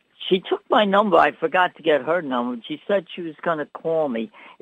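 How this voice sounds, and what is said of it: New York accent. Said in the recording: “where are you from? ... New York. ... I love the accent.”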